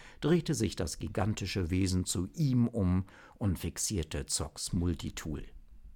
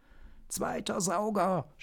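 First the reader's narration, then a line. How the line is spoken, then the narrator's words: Shouted. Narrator (German): schrie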